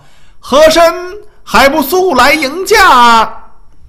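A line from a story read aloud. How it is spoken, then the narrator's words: Eunuch shouting loudly. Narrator (Chinese): 跟在后面的太监大声叫道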